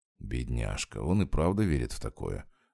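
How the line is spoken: Sighing, then serious question. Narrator (Russian): вздохнул про себя Валентин и спросил со всей серьезностью

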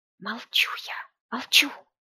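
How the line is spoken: Whisper. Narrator (Russian): Шепотом произнесла Оленька

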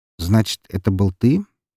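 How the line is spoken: Calm question. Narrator (Russian): спокойно спросил у него

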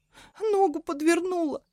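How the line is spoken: Whimpering. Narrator (Russian): хныкала Элиза

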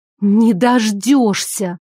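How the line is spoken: Words through clenched teeth. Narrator (Russian): Процедила я

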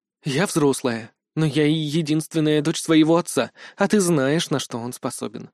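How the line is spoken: Breathed out. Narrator (Russian): выдохнула Юн Хян Ми

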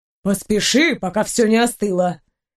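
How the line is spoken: Grumbling. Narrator (Russian): Проворчала ей вслед Серафима

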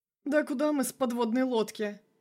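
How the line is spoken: Laughing. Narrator (Russian): рассмеялся он

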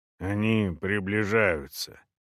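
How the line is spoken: Quiet. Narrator (Russian): негромко сказал первый

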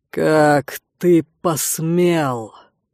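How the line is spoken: Slow, through clenched teeth. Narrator (Russian): Раздельно процедил Светлый

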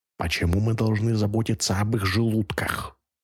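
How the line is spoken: Ruler hissing. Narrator (Russian): прошипел правитель

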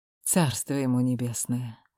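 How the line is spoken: Muttering. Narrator (Russian): пробормотала Яна

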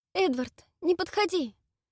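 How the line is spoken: Fearful pleading. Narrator (Russian): взмолилась девушка, боязливо оглядываясь

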